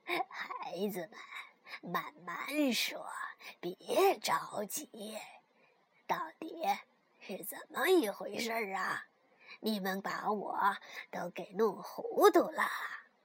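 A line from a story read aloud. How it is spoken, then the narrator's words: Cheerful old woman. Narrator (Chinese): 熊婆婆笑呵呵地说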